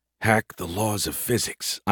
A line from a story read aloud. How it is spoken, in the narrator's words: I muttered to myself